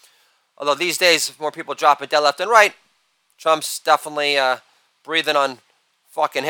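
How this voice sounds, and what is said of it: Usual voice. Nothing is said of it.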